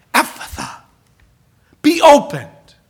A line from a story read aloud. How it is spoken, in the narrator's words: He sighs